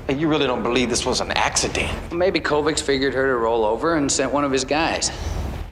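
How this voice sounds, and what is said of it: Odd New York accent. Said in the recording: “What accent is this? ... I do not know what part of New York that accent is supposed to be from. ... cannot pronounce accident”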